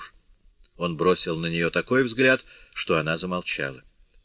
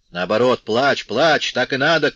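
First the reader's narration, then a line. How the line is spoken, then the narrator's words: Shouting father. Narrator (Russian): крикнул отец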